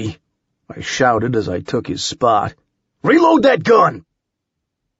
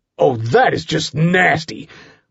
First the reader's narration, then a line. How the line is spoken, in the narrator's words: growled